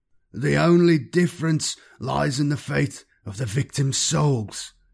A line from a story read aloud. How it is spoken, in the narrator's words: he shouted aloud, as if addressing a rally of doubtful subjects